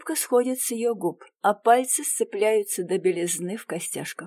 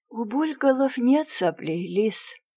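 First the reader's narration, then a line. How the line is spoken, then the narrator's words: Sad, smiling. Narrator (Russian): грустно улыбается подруга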